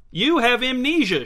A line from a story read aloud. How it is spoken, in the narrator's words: shouted Jace